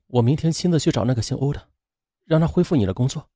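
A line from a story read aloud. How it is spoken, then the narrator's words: Softly. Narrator (Chinese): 王月轻声说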